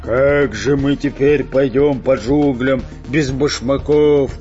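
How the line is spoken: Grumbling pirate. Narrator (Russian): проворчал пират Буль-Буль

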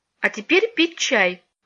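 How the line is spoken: Stern girl's voice. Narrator (Russian): опомнившись, строго сказала девочка

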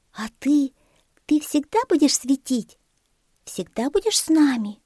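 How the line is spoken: Timid question. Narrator (Russian): робко спросил Светик

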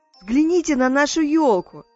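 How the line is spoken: Exclaimed. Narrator (Russian): воскликнул Мумитроль

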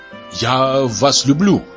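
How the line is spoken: Plain. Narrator (Russian): сказал Бурмин

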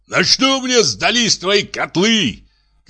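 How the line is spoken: Shouting. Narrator (Russian): кричал Ананьев

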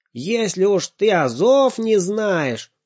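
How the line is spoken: Loud scolding. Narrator (Russian): громко выговаривал он маме

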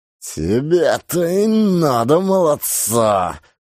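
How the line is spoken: Menacing shout. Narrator (Russian): грозно крикнул гусь

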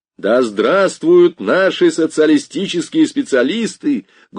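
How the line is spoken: Loud. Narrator (Russian): громко сказал Определенов

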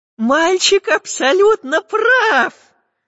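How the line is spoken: Joyful. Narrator (Russian): радостно закивал профессор Пыхтелкин

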